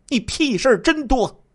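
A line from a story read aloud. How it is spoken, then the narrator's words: Angry scolding. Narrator (Chinese): 正在看电视的燕志云，怒声骂道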